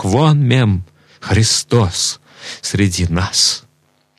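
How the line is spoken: Loud exclamation. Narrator (Russian): И воскликнул всем вслух

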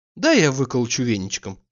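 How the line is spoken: Affectionate. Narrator (Russian): ласково заключила она

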